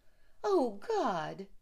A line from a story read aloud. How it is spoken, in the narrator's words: she cried